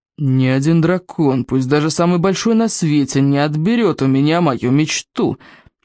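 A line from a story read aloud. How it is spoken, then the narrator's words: Through clenched teeth. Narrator (Russian): процедил Норберт сквозь стиснутые зубы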